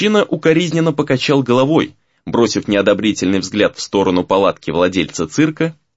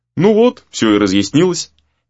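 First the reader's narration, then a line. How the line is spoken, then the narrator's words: Cheerful announcement. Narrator (Russian): весело сообщил Гризли друзьям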